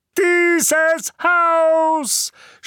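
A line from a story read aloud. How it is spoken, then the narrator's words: Shouted angrily. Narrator (German): schrie Onkel Vernon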